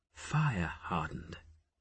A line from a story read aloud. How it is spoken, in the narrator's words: she murmured to Jophiel